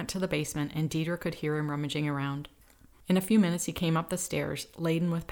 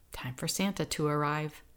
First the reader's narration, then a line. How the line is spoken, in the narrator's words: quietly, Ben whispered